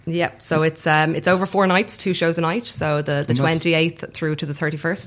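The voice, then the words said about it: Irish accent. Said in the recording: “your Irish accent really came through”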